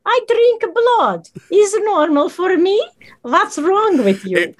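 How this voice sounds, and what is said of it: Deliberately bad put-on Barovian accent. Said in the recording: “That's my absolute terrible Barovian accent.”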